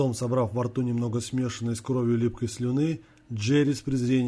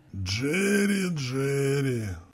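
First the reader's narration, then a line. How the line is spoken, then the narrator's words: Annoyed sigh. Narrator (Russian): С досадой вздохнул двойник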